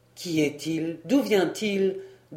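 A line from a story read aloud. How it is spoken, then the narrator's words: Plain question. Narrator (French): demanda Saint-Pierre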